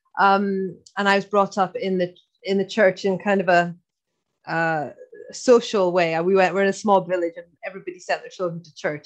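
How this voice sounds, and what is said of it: Slight Irish accent. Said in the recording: “I'm Scottish, but I know I've got a bit of an Irish accent.”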